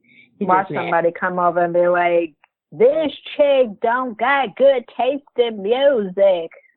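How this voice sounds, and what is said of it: Old grandma voice. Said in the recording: “this old grandma voice”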